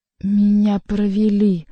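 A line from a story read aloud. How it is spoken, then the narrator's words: Low muffled growl. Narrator (Russian): глухо прорычал Генрих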